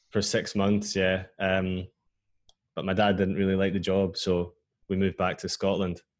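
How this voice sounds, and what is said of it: Scottish accent. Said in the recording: “I can hear from your accent that no permanent damage was done.”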